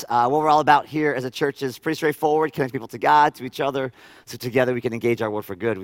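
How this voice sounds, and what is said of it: Slightly hoarse voice. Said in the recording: “my voice sounds a little hoarse”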